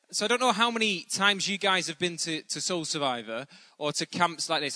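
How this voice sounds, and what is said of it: Northern English accent. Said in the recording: “I'm from Bolton, which is about 12 miles outside of Manchester. So I am from the north ... some of you may struggle to understand my accent.”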